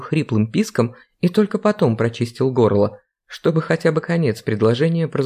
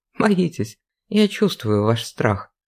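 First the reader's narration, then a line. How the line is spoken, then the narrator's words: Sigh. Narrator (Russian): вздохнула Вера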